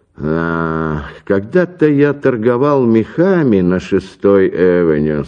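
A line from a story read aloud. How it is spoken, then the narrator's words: Plain. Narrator (Russian): сказал он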